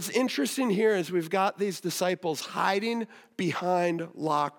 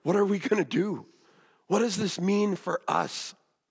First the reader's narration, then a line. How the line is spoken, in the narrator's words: whispers